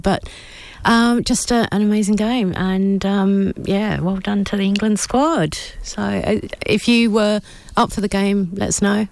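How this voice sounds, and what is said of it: Strained voice, losing voice. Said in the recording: “I'm losing my voice because I was cheering along”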